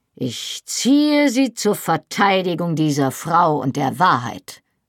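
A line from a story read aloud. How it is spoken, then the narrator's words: Iron-hard firm voice. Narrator (German): antwortete mit eiserner Stimme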